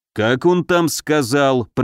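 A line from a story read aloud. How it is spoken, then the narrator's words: Grumbling. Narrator (Russian): проворчал богатырь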